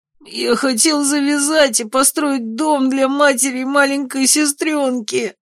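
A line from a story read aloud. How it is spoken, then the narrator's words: Strained wheeze under pressure. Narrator (Russian): Просипел наглый парень, ключицу которого я так и продолжал вжимать в тело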